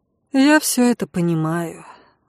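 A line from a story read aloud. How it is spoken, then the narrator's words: Sigh. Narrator (Russian): вздохнула я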